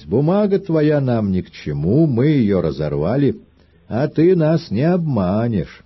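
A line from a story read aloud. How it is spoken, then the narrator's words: Laughing men. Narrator (Russian): Мужики смеялись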